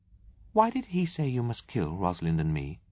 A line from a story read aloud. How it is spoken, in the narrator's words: She asked earnestly